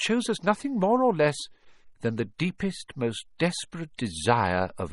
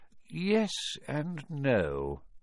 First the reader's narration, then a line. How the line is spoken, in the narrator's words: said Dumbledore quietly